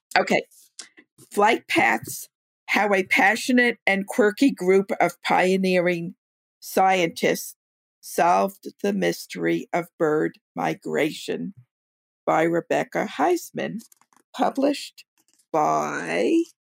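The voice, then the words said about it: Losing her voice, hoarse. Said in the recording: “I started losing my voice as soon as we started podcasting.”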